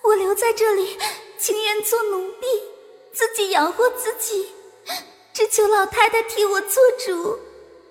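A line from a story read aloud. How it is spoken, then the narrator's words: Tearful pleading. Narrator (Chinese): 黛玉哭着央求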